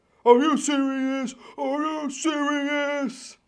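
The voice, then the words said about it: Dick Vitale impression. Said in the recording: “I've been told I do a pretty good Dickie V impression.”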